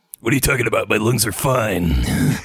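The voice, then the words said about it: Raspy Dirty Harry-style character voice. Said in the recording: “it sounded like you had smoked an entire pack of menthols ... Easy, Dirty Harry ... It kind of crosses into my auto impersonation.”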